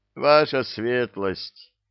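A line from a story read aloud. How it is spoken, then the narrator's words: Mercenary moaning in pain. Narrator (Russian): простонал один из наемников, баюкая вывихнутую руку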